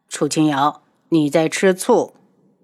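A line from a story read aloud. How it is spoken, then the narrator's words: Cool, indifferent. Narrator (Chinese): 轩辕志神情淡淡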